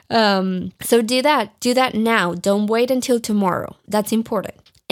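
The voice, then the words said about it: Speaks with an accent. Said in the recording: “I'm probably not even saying it right. You can laugh at my accent.”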